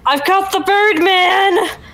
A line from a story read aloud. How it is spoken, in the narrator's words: I'm gonna shout